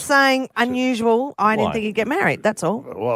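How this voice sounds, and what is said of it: Usual voice. Nothing is said of it.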